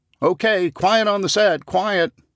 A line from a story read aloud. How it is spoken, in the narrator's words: Someone shouts